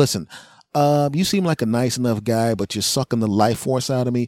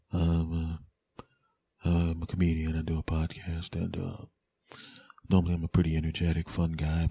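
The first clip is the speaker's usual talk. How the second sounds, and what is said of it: Quiet, low-energy subdued voice. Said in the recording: “I sound a little different right now ... I got a little, bit, a little more vi- uh, volume in my voice ... I'm back to myself”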